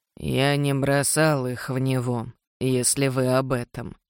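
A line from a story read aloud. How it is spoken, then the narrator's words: Grumbling. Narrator (Russian): проворчал он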